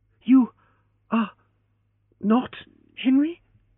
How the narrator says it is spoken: she gasped

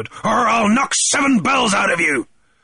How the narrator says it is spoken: thundered

